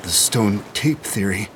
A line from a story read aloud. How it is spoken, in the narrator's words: said Hammond, his voice unsteady